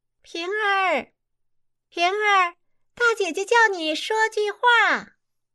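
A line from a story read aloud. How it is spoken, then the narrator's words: Calling. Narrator (Chinese): 孟玉楼叫李瓶儿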